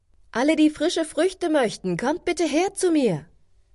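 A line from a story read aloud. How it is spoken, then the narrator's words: Fruit seller calling out. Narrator (German): eine Obstverkäuferin … rief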